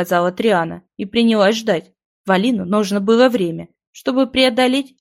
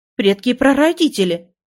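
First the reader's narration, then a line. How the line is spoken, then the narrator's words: Hostess exclaiming. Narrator (Russian): воскликнула хозяйка дома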